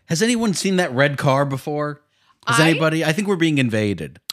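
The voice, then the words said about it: Yelling. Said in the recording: “You're yelling”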